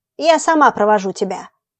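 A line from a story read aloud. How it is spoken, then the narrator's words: Angry old woman. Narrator (Russian): сердито сказала старуха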